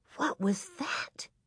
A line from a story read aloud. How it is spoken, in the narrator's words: Carrie asked in a thin, scared whisper